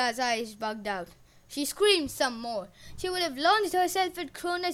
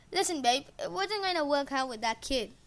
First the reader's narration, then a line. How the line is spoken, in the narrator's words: said Kronos